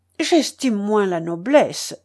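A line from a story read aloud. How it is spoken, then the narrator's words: Exclaimed. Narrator (French): s'écria Scipion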